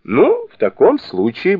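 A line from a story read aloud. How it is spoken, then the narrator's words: Cheerful. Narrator (Russian): бодро сказал Сунь-кун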